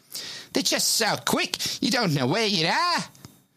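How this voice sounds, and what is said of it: Put-on accent. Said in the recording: “Neither do I with that accent.”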